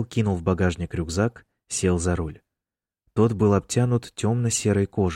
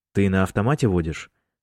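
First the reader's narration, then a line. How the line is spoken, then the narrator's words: Plain question. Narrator (Russian): спросил Майкл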